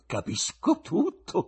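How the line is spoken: Exclaimed. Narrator (Italian): esclamò

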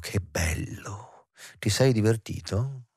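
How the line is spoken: Whispered. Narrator (Italian): lui bisbigliò

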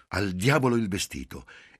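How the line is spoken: Impatient. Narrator (Italian): Giulia esclamò con impazienza

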